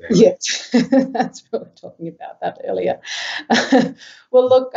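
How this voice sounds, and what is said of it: Usual voice. Nothing is said of it.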